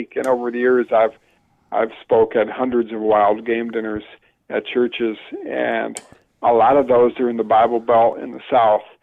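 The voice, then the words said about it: Northern US accent. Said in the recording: “my Northern accent ... you're a Yankee”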